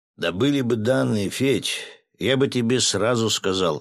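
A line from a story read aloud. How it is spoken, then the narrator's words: Sighing. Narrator (Russian): вздохнул майор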